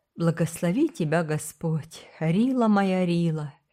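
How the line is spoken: Soft and tender. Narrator (Russian): произнес он мягко и нежно

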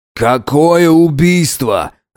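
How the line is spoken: Shouting. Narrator (Russian): закричал начальник полиции

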